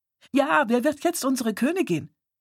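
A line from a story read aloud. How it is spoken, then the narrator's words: Excited young girl calling. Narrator (German): rief die noch junge Johanna aufgeregt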